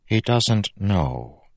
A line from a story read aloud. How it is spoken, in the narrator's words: Vendel said softly